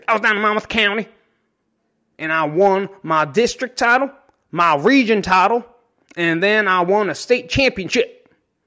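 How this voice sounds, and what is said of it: Put-on country accent. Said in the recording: “Monmouth County has a country accent.”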